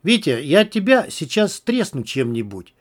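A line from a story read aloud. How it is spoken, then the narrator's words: Sharp hiss. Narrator (Russian): резко шикнул Макс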